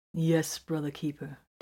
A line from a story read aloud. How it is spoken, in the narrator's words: Titus answered calmly